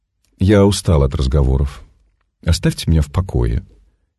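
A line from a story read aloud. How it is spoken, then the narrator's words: Calm. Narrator (Russian): спокойно сказала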